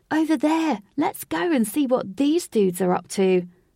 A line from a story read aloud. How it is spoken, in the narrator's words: Lynx said eagerly